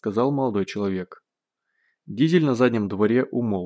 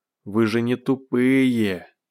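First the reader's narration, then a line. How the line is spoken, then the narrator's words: Near groan. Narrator (Russian): чуть не простонал бывший пленник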